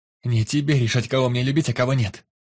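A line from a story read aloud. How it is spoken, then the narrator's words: Furious shout, young woman. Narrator (Russian): Яростно выкрикнула девушка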